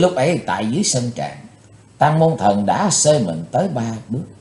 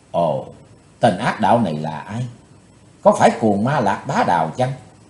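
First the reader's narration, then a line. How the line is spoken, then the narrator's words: Soft whisper. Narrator (Vietnamese): khẽ thầm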